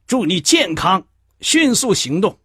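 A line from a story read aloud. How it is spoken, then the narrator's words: Loud group cheering. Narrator (Chinese): 大家高声欢呼着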